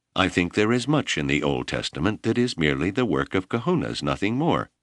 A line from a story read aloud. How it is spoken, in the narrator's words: Keoki said firmly